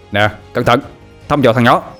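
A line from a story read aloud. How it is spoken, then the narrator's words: Loud shout. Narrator (Vietnamese): Tâm hét lớn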